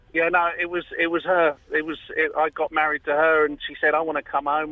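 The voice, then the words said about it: London accent. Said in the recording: “you have How a lovely accent. ... I'm originally from London. ... London Battersea, mate. ... You haven't lost the accent.”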